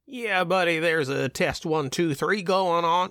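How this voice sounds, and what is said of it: Put-on Southern US accent. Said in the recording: “Don't do a southern accent. ... that sounds stupid.”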